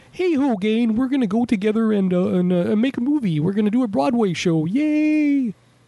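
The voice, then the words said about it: Weak Kermit the Frog impression. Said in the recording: “That's not a great Kermit impression”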